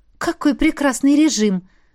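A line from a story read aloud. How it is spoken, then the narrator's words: Exclaiming. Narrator (Russian): воскликнула я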